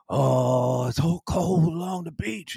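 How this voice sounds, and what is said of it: Imitates another person's voice. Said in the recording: “doing my Bruce Springsteen imitation.”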